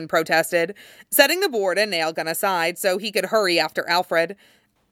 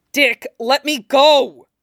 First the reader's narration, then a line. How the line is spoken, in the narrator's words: he snapped furiously